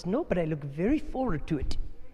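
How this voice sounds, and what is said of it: Poor put-on Indian accent. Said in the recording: “That's a terrible Indian accent.”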